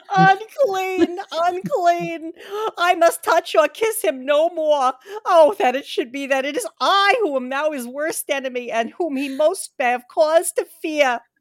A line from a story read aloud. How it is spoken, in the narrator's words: with a low wail and whispered amongst choking sobs